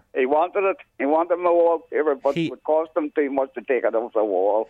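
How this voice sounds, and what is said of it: Strong regional accent. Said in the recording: “It's your accent. I'm getting confused.”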